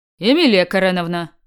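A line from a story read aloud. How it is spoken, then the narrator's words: Stern question. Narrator (Russian): спросил строго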